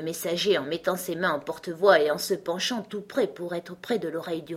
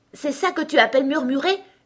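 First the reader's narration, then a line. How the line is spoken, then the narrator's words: Startled exclamation. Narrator (French): s'écria le pauvre roi en sursautant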